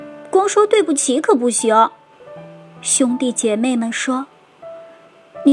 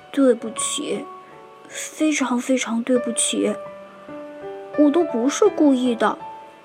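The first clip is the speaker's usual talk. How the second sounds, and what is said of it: Very small, quiet voice. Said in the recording (Chinese): “用很小的声音说”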